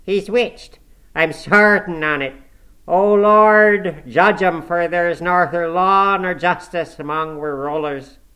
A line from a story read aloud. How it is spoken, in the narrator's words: he added with a groan